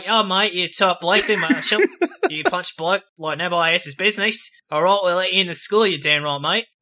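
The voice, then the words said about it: Exaggerated put-on Australian accent. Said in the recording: “My Australian accent's just too good ... it does sound like someone with a Boston accent doing an Australian accent”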